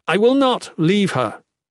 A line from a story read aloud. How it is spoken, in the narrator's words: he exclaimed